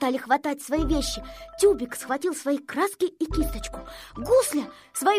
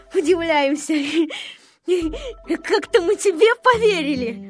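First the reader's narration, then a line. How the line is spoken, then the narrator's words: Mocking, laughing crowd. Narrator (Russian): Все смеялись над Незнайкой и говорили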